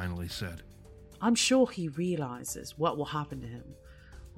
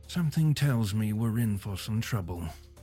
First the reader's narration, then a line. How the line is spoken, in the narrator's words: the Englishman sighed